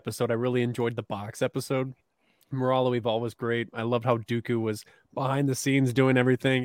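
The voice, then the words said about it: Hoarse, fading voice. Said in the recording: “I'm losing my voice right now”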